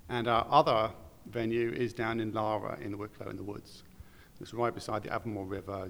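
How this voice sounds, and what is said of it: Non-Irish accent. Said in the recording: “we can tell by your accent you're not from Wicklow or Dublin”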